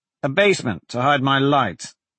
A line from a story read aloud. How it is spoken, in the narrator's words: Blaze said